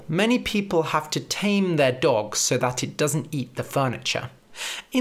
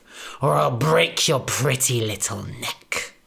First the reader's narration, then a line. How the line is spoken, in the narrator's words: spat the big bad wolf